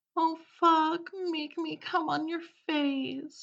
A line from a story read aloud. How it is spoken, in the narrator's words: she groaned